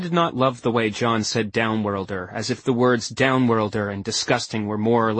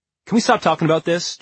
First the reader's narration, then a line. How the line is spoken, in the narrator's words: John demanded, his voice sharp